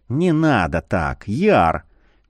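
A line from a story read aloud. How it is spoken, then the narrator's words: Soft. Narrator (Russian): мягко проговорил Марий полумесяц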